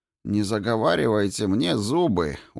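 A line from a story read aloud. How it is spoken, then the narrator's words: Tired request. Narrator (Russian): устало попросил Кин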